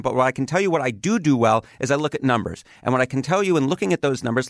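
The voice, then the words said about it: New York accent. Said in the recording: “I don't necessarily talk with a Midwestern accent. You know, I have a New York sort of accent”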